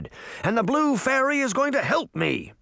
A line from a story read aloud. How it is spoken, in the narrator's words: Uncle Jake shouted